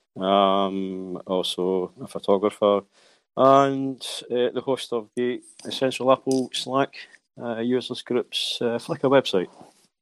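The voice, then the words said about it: Scottish accent. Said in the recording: “Scotsman, as you can tell by the accent.”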